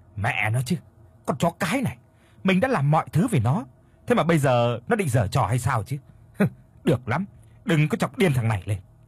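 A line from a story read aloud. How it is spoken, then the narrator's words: Irritated snapping. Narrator (Vietnamese): Có một chút bực bội, anh gắt lên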